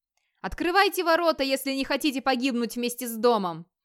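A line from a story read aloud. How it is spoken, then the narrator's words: Shout. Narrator (Russian): выкрикнул он наконец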